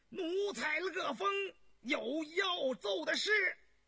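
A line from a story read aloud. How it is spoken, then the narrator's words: Loud voice. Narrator (Chinese): 下边就有人高声说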